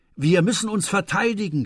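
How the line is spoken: Shouting. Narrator (German): schrie er

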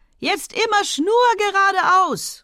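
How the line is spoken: Exuberant young man calling. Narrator (German): rief der junge Mann ausgelassen

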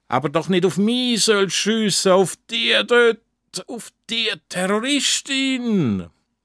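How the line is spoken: Dying, strained call. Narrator (German): kann gerade noch mit der sterbenden Stimme rufen

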